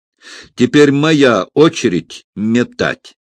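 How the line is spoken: Cheerful laughter. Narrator (Russian): Он засмеялся, кажется, пребывая в отличном расположении духа

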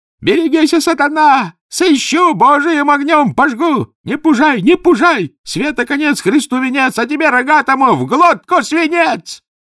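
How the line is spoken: Shouted. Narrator (Russian): крикнул

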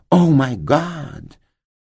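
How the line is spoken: Exclaiming. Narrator (Russian): мисс Каллиган воскликнула

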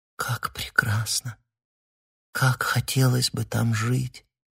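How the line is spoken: Whispering. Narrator (Russian): прошептала она

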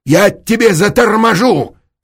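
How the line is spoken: Barked. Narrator (Russian): рявкнул Эраст Петрович

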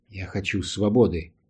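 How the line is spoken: Quiet reply. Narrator (Russian): ответил он негромко

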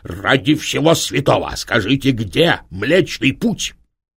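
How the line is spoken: Shout. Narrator (Russian): наследник крикнул

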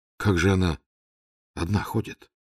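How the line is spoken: Quiet question. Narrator (Russian): тихо спросил Раст Петрович

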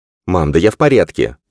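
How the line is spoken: Sharp interruption. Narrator (Russian): оборвал он ее, причем более резко, чем хотел

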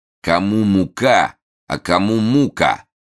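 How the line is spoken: Loud, rough voice. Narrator (Russian): громко сказал какой-то длинноволосый с испитым лицом, не похожий на других

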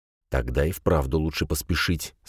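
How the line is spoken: Plain. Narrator (Russian): сказал Фрель

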